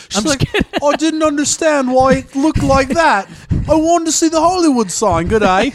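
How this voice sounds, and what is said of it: Bad put-on Australian accent. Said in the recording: “Holy crap, that was terrible. ... That's how I get into my Australian accent.”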